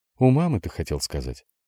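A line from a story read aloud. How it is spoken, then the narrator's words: Soft correction. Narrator (Russian): Мягко поправила его Лиза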